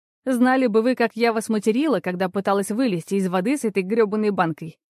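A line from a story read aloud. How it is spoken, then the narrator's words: Good-natured reply. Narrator (Russian): без злобы ответила Маша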